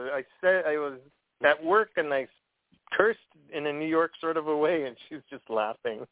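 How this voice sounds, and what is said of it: Usual voice. Nothing is said of it.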